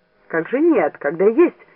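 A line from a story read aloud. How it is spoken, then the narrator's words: Angry. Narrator (Russian): сердито сказал Эрнест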